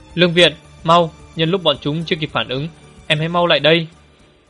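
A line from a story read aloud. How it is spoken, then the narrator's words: Shouting. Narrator (Vietnamese): Được Phong hét về phía Lương Viễn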